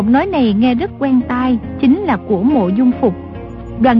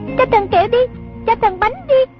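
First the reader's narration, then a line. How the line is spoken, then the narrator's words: Pleading chant. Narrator (Vietnamese): Chúng vừa hô vừa lạy, có đứa năn nỉ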